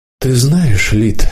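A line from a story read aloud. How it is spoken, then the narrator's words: Sighing. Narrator (Russian): депутат вздохнул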